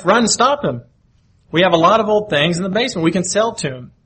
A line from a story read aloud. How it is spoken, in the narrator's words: called out to my wife